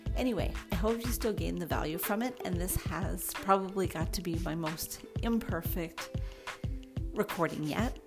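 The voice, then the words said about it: Quiet, low-volume voice. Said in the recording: “my voice is quite low as I was shy about recording where other people could hear me”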